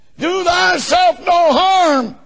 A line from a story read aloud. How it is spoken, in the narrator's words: he'd have cried too late